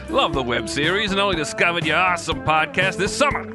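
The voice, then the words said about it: Put-on Australian accent. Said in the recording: “You made me do an Australian accent for too long.”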